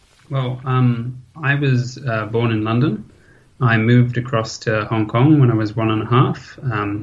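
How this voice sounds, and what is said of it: British accent. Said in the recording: “a bit of a British accent”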